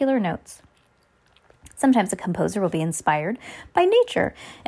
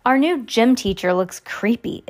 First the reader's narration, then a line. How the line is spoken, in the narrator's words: Isadora said